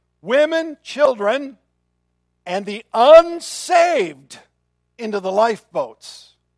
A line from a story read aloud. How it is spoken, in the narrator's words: he was heard shouting to this